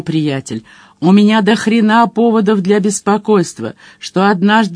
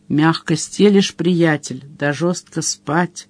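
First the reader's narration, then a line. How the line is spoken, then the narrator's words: Grumbling mutter. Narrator (Russian): буркнул Мадж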